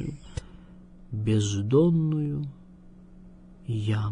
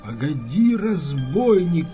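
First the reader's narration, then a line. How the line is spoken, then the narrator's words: Shouting at someone. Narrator (Russian): кричал он на кучера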